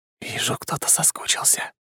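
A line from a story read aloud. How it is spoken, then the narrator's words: Whisper. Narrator (Russian): прошептал я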